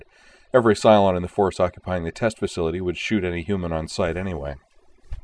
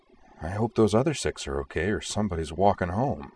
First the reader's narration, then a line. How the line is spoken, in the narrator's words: Starbuck muttered under her breath